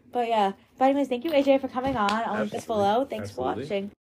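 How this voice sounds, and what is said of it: Weak, nearly lost voice. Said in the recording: “I'm very sorry about my voice, guys. I swear I'll have a voice next episode.”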